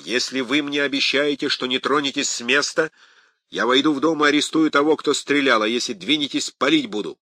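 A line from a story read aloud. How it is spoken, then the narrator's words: Shouted. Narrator (Russian): прокричал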